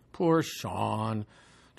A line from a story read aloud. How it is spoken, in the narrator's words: Joel whined with awe